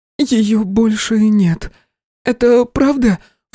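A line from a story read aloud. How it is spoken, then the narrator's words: Sobbing, growing louder. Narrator (Russian): всхлипывала она все громче и громче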